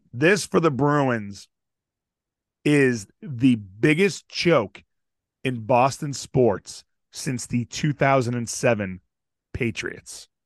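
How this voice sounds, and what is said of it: Raspy voice. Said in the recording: “I've been a little under the weather, so my voice is very raspy.”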